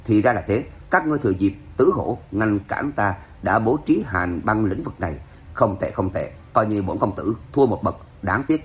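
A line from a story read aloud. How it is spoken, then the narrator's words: Cold laugh, calm whisper. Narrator (Vietnamese): Hoàng Phủ Thanh Thiên cười lạnh, vẫn không thấy vẻ bối rối sợ hãi nào, chỉ là thì thào lên tiếng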